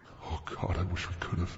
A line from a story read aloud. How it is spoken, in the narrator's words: I mumbled